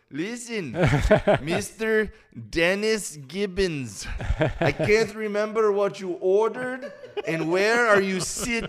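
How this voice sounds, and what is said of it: Imitated thick accent. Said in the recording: “like a thick accent.”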